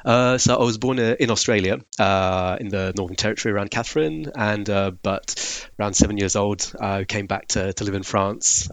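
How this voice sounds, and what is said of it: Eclectic English-sounding accent, French twang. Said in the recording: “accent's just impossible to place. It's very eclectic. You've got a bit of kind of, it's very very Englishy, but also there's a bit of French twang ... most people say South African ... there is a French twang to it”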